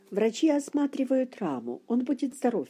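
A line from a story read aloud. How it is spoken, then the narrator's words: Cheerful, smiling. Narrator (Russian): весело улыбнулся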